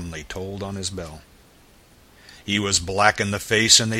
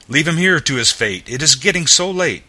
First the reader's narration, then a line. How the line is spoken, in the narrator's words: the bellman exclaimed in a fright